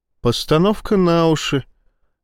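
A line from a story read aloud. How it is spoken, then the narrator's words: Serene, calm explanation. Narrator (Russian): объяснила Ива безмятежным тоном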